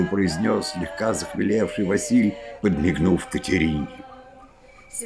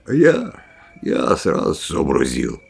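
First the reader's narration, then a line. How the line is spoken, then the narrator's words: Grumbled. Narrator (Russian): пробурчал Василь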